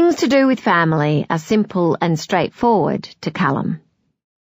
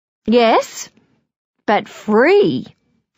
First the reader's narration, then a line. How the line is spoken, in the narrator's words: said cheerfully